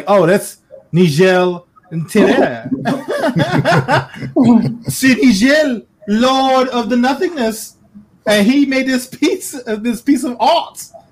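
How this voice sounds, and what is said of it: Put-on accent, inconsistently held. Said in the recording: “I don't know why my accent keeps fluctuating because I can't hold it.”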